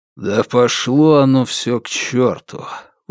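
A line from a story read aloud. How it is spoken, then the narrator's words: Weary cursing. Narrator (Russian): устало выбронился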